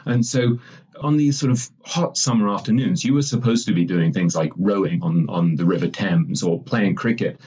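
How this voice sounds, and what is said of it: Posh English accent. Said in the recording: “you can probably tell from my ridiculous accent, I went to the poshest English boarding school”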